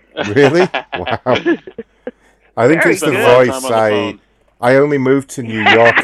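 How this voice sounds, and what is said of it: English accent. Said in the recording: “I'm actually from Great Britain. ... I still have my English accent going on here.”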